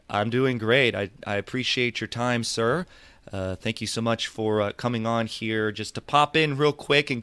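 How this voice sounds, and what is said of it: Hoarse voice. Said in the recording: “If my voice sounds hoarse or not as it usually does, I'm a little under the weather”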